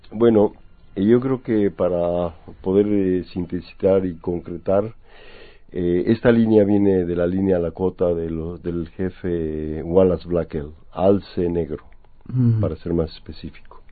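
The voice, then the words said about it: Slight Mexican Spanish accent. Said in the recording (Spanish): “Mexicano, ¿verdad? Se te nota un poco el acento.”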